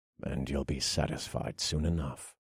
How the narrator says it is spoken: I muttered

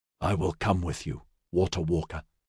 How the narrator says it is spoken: Homelt said softly

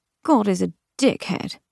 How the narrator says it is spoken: she murmured

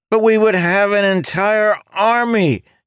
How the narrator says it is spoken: Jacob shouted, sounding flabbergasted

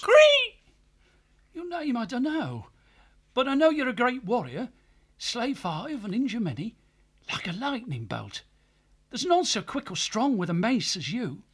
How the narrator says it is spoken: cried out

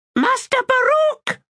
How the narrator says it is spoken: He squealed

